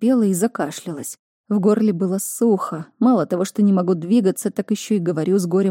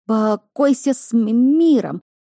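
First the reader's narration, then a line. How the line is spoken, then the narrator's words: Stammering voice. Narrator (Russian): заикающимся голосом произнес он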